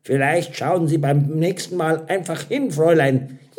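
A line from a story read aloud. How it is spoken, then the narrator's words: Dry and sharp. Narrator (German): sagte trocken und scharf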